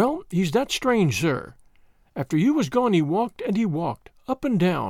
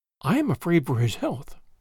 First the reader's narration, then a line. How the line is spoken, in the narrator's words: sinking her voice into an impressive whisper